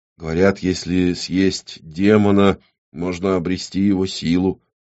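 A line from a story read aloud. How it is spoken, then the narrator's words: Quiet, drawn-out, reasoning. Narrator (Russian): негромко протянул рассудительный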